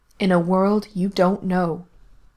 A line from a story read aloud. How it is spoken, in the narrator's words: Nina had said sternly